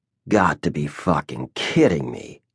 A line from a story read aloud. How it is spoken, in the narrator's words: muttered